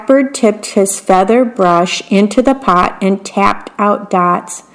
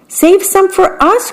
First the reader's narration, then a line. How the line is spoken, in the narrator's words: cried the small birds